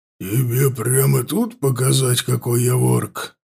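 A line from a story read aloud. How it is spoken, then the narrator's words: Growl. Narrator (Russian): прорычал Лотар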